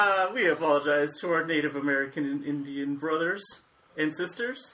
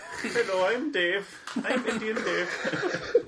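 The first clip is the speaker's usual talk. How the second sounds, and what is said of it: Put-on Indian accent. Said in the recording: “doing the dot on the head accent”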